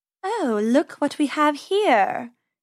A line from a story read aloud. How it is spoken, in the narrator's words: she purred